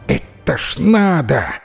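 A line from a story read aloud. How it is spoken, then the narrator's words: Rooster-like exclamation. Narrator (Russian): воскликнул петух по-петушиному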